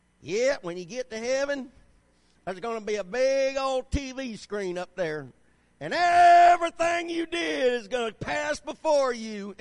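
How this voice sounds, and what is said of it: Put-on Southern preacher accent. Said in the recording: “I love it when they do it with a southern accent too.”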